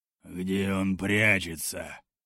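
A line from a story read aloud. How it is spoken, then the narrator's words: Growled. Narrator (Russian): прорычал Борла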